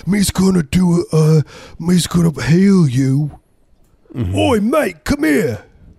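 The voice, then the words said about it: Heavy put-on British accent. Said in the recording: “heavy British accent”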